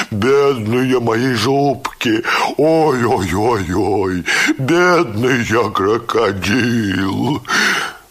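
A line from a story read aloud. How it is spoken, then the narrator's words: Crying in deep bass. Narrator (Russian): Плакал он басом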